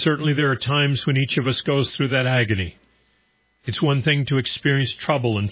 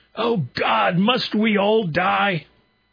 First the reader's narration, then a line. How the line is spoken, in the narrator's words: Sobbing and throwing his hands toward heaven, he shouted